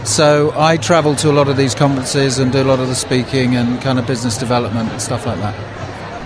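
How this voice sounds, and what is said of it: English accent. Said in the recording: “As you can tell from my accent, I am not from around these here parts. I'm from England”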